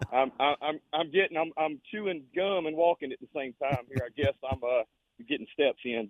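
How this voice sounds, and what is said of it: Out of breath, breathy speech. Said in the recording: “if I sound like I'm out of breath, it's because I'm fat and out of shape and I am out of breath.”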